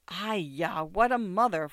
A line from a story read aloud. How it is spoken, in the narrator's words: Fourth Aunt exclaimed